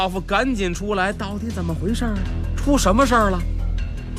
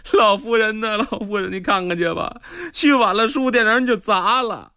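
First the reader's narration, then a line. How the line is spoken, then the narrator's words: Collapsing in tears. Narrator (Chinese): 这小伙计就哭倒在地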